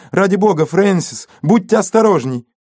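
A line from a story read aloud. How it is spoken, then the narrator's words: Shouting. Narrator (Russian): Леонси крикнула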